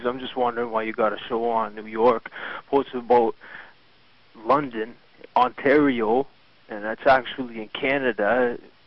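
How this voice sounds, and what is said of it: Strong regional accent, angry tone. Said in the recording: “Good anger great accent.”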